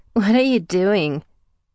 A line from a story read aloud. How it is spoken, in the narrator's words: growling low in my ear